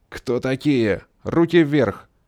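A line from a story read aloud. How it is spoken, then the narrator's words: Habitual commanding bark. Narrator (Russian): привычно рявкнул командир патруля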